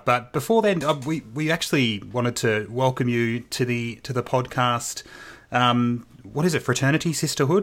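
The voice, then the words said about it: Australian accent. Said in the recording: “the Australian accent does not do, and particularly mine, does not do well with words like these”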